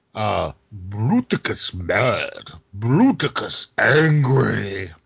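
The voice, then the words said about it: Impersonation of a cartoon character. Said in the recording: “impersonations of random things”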